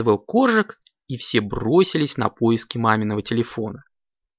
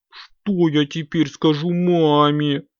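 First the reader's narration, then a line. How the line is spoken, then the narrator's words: Whimpering. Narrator (Russian): захныкал Компот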